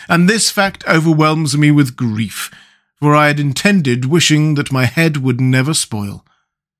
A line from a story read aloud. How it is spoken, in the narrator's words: wailed the Pumpkinhead